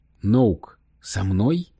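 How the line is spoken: Plain. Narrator (Russian): спросил его Скайлер

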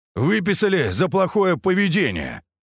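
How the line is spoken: Answered, then laughed. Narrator (Russian): ответил Андрей и сам же захохотал

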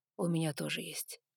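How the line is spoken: Quiet confirmation. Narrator (Russian): подтвердил он тихо

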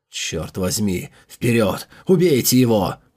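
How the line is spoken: Fierce hiss. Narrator (Russian): прошипел спасшийся всадник, обладающий огненной воинственностью

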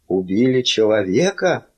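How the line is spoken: Breathless exhale. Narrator (Russian): выдохнул он

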